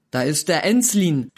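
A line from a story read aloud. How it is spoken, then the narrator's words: Called out. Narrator (German): rief jemand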